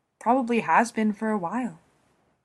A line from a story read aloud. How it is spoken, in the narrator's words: he says, keeping his voice as even as possible